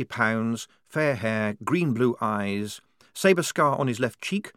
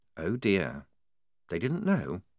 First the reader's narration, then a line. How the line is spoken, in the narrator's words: She said, very quietly